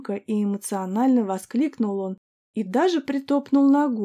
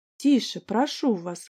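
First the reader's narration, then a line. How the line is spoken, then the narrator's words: Calm. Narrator (Russian): сказал я спокойно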